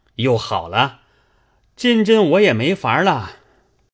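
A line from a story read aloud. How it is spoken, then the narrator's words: Laughing. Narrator (Chinese): 贾琏也笑道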